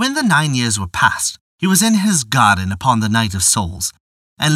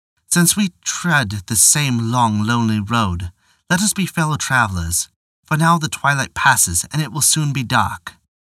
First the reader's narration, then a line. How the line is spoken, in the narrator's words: he said very gently